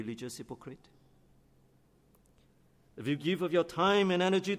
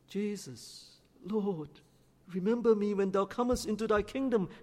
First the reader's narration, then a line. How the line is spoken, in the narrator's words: he cried